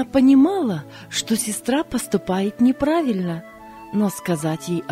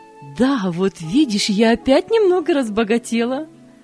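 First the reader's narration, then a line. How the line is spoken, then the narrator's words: Laughing. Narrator (Russian): Засмеялась Мария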